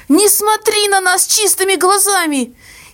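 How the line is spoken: Hysterical cry, sobbing mother. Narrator (Russian): истерически выкрикнула мама и зарыдала

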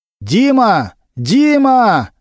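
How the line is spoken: Loud shout. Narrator (Russian): громко крикнул Немирович

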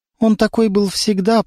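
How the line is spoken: Trembling voice. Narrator (Russian): проговорила дрожащим голосом

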